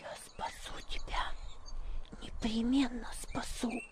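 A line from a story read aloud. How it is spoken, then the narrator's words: Girl's whisper. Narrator (Russian): шепнула девочка ему на ухо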